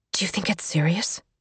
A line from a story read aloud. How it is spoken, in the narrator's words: she whispered